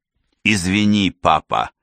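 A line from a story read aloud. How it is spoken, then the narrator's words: Exhausted wheeze. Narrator (Russian): теряя последние силы, просипел Квинс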